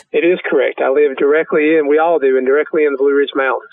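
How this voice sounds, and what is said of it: North Carolina Southern accent. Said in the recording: “you can tell by your accent, you're from South Carolina ... We can tell you're from North Carolina.”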